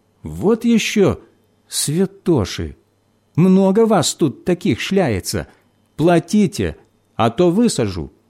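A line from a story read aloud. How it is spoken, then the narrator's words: Displeased cry. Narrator (Russian): кондуктор недовольно вскрикнула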